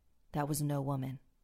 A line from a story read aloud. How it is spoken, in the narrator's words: my dad replied